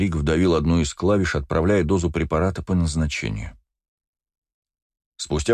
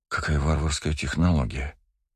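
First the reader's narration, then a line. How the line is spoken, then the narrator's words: Barely audible awed whisper. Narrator (Russian): едва слышно прошептала Агата, пораженная увиденным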